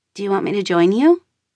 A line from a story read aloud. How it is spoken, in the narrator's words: asks, her voice hesitant